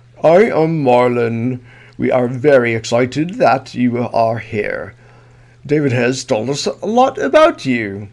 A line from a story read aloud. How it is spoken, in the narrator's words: said in a thick English accent